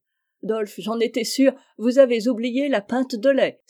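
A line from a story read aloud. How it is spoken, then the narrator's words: Exclaiming. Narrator (French): s'écria maman Nell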